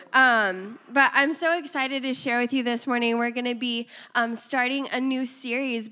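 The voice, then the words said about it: Raspy, hoarse voice. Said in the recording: “Please excuse my raspy voice ... we've been fighting a cold at the ... home, and so I sound like this”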